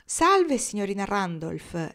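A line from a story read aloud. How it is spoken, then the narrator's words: Man's voice exclaiming. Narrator (Italian): esclamò una voce d'uomo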